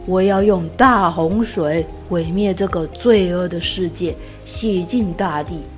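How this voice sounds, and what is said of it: Strong, powerful booming voice. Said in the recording (Chinese): “那个强而有力的声音说”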